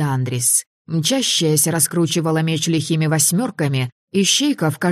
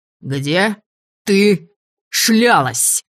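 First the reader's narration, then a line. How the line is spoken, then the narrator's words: Clipped, very angry bark. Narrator (Russian): Раздельно и очень злобно рявкнул невидимый полынь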